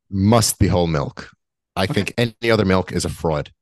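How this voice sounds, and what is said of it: Brooklyn accent. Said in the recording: “the Brooklyn accent”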